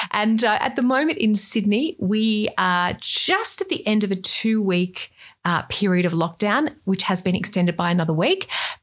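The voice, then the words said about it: Australian accent. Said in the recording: “my accent, you can tell I'm Australian”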